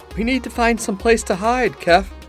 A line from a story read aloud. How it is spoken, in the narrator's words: Rayleigh said, panting